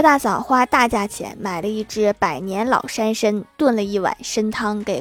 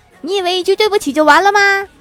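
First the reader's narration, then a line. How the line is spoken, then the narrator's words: Girl shouting. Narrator (Chinese): 女生接着喊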